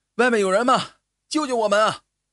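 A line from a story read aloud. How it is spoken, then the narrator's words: Loud calling. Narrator (Chinese): 帕格尼对着洞口大声的呼唤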